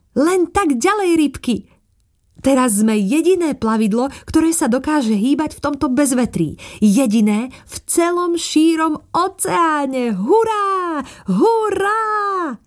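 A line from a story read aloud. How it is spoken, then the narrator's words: Exclaimed. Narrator (Slovak): plavčička zvolala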